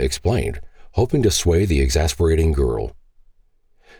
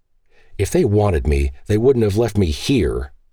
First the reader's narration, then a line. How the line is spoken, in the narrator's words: she hotly exclaimed